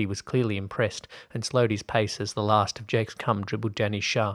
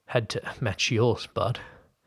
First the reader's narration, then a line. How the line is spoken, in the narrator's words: Jake managed through panting breaths